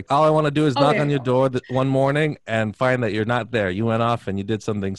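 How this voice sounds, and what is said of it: Ben Affleck impression, Boston accent. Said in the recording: “you have to do the accent, of course. ... The Boston accent.”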